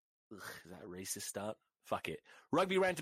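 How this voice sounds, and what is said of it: Usual voice. Nothing is said of it.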